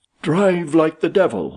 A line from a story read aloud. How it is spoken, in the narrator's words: he shouted